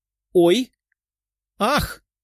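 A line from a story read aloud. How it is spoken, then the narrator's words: Two girls crying out. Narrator (Russian): вскрикнули две девушки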